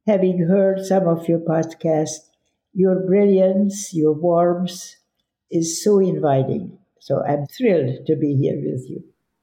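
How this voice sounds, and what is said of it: Slightly hoarse voice. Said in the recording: “I'm a little bit hoarse at times”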